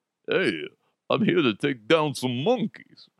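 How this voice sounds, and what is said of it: Sylvester Stallone Rambo-type impression. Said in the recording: “maybe it's Sylvester Stallone type, you know, kind of like a Rambo guy.”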